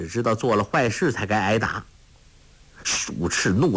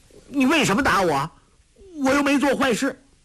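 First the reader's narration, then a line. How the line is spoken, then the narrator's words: Holding back tears, defiant. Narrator (Chinese): 郭靖疼得要哭，却拼命忍住眼泪，昂头说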